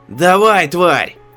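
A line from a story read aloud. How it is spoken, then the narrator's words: Sudden hysterical scream. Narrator (Russian): вдруг закричал он, истерично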